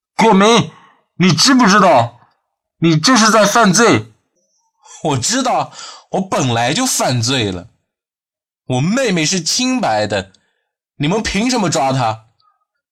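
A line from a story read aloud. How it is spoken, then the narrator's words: Shouting through a megaphone. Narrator (Chinese): 端远拿出大喇叭喊道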